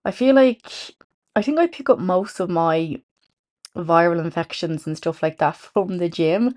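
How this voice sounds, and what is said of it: Sick, under-the-weather voice. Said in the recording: “You'll have to excuse my voice. I am a bit under the weather. I have swollen glands.”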